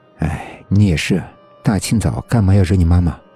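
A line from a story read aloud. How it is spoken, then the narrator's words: Sighing. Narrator (Chinese): 程毅叹口气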